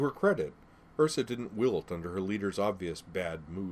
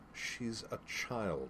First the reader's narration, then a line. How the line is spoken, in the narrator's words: In a reasonable tone, she said